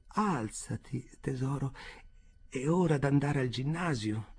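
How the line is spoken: Sorrowful tone. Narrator (Italian): dice in tono addolorato

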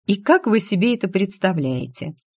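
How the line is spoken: Laughing. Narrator (Russian): Я даже рассмеялась

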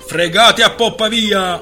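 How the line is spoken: Man yelling from above. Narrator (Italian): urlò l'uomo inerpicato lassù

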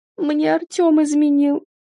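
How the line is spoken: Tearful reply. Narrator (Russian): ответила сквозь слезы

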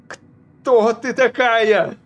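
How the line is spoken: Yelling. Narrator (Russian): заорал Алун

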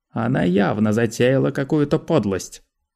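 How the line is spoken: Accusing tone. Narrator (Russian): обвиняющим тоном сказал Манео

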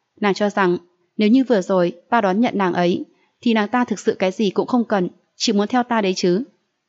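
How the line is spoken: Smiling. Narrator (Vietnamese): Mặc Tu Nghiêu mỉm cười nói

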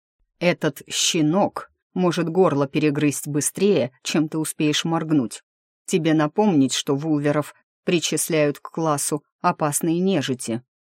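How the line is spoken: Monstrous growl. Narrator (Russian): прорычал не хуже этой самой нежити рассветный

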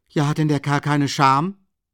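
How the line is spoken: Exclaimed, jumping up. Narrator (German): rief Rasumichin aufspringend aus

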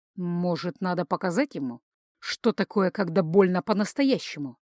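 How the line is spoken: Captain's near-hissing voice. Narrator (Russian): Голос капитана разве что не зашипел на конечных звуках

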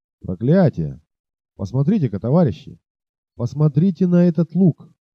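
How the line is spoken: Shouted. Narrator (Russian): Мексиканец, выкрикнувший эти слова

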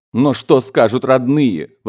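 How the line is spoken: Grandmother exclaiming desperately. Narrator (Russian): воскликнула бабушка, хватаясь за соломинку

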